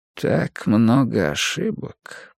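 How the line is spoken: Muttering under breath. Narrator (Russian): пробормотал Йоханнес Халден себе под нос

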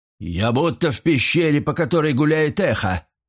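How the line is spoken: Exclaiming. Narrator (Russian): воскликнул Каларина

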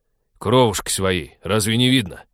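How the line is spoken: Barked. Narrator (Russian): рявкнул Вадим в противовес ребенку

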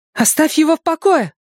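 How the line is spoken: Shouting. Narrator (Russian): закричала Беверли

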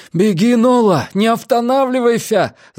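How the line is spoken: Shouting. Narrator (Russian): закричал Лютер

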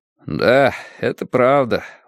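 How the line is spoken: Glum reply. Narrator (Russian): уныло отозвался Уордл

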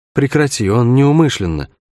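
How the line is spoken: Tired plea, off to side. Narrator (Russian): устало попросила Шерн откуда-то сбоку

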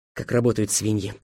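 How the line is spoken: Muttering. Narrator (Russian): пробормотал Беккер

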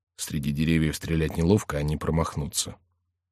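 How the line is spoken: Whispered. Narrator (Russian): шепнул Ламолю

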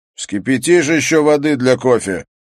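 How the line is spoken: Loud question. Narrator (Russian): громко спросил он

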